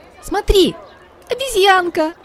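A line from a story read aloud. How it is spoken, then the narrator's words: Exclaiming. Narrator (Russian): воскликнула Китти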